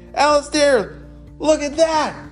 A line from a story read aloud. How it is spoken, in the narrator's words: Everett shouted